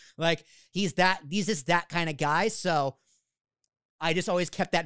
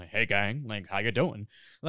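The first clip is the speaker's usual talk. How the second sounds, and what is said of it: Very deep low voice impression. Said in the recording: “that deep voice is me too ... that voice is actually my impression of Neil St. Clair ... And he talks very low.”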